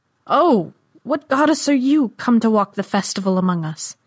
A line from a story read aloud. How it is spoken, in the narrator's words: Jaren cried